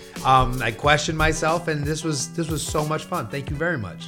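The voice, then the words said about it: Emotional, slightly choked-up voice. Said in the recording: “I got a little emotional. I don't cry full on, but I get it. You can probably hear it in my voice.”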